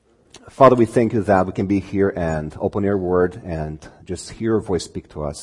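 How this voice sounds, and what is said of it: Speaks with a noticeable foreign accent. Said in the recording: “bear with me with my accent. I hope it's not too thick, because uh, again, when I'm nervous, it gets uh, thicker.”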